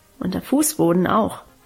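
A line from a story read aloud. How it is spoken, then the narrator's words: Murmuring. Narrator (German): murmelte sie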